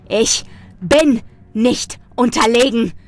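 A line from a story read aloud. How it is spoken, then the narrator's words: Bellowing. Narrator (German): brüllte ich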